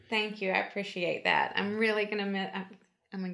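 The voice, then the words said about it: Teary, emotional voice. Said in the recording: “getting teary.”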